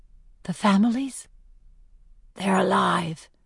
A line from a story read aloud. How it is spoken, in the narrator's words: she says back softly